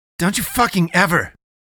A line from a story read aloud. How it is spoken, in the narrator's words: Eddie spat